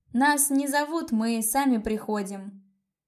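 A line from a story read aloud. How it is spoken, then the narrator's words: Sudden loud declaration. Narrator (Russian): неожиданно громко заявила я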